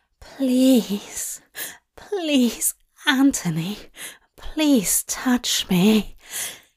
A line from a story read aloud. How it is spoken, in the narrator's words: Aziraphale read, a desperate plea, his voice laden with arousal